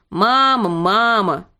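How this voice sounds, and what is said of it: Mocking imitation of a child's whine. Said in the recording (Russian): “передразнил”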